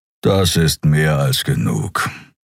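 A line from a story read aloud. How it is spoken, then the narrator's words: Growled. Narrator (German): knurrte er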